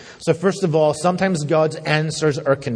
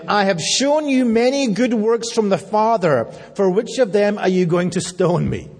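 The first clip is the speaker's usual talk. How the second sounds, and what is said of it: Sarcastic Scottish or British accent. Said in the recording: “Jesus answered them with great sarcasm ... when he's sarcastic, I'm sure he speaks in a Scottish or a British accent”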